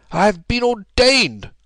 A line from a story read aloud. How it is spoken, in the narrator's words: cried the old rascal